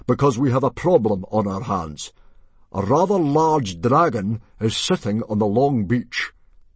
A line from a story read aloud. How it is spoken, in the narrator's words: boomed Stoic